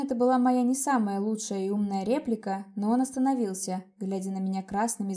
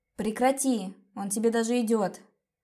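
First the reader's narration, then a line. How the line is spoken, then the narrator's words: Rude, cutting interruption. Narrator (Russian): Грубо оборвала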